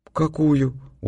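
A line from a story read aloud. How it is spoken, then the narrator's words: Dejected question. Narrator (Russian): упавшим голосом спросила она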